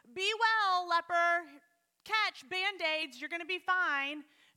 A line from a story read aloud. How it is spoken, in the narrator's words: shouting